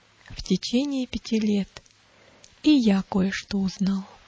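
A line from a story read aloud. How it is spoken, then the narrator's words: Deep sigh, then speaking. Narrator (Russian): Иуда глубоко вздохнул и сказал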